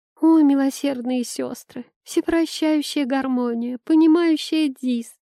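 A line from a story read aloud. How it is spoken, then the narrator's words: Sobbing. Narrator (Russian): всхлипнула Айла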